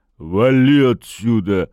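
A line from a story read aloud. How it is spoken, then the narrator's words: Through gritted teeth. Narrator (Russian): процедил субъект в кепке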